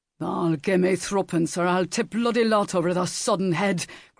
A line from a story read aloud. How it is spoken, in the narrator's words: growled Sam